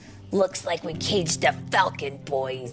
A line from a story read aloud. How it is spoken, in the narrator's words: Hoyt turned to his pals and growled